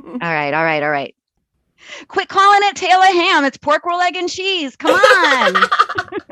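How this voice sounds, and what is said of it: Put-on New Jersey accent. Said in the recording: “Can you give me your best Jersey accent?”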